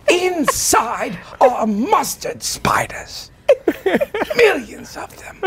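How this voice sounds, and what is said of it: Spot-on voice impression. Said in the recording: “It's spot on. It's really good. ... Good impression.”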